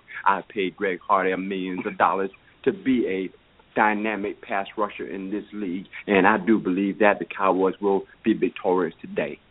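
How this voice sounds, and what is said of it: Good Jerry Jones impression. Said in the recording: “a pretty good impression of Jerry Jones ... especially the way he said Cowboys”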